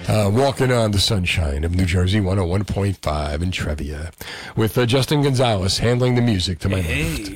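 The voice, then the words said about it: Smooth sexy FM radio voice. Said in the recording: “this is my FM voice, my sexy voice.”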